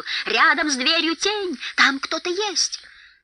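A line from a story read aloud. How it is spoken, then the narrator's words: Sudden goblin yell. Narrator (Russian): Внезапно один из гоблинов заорал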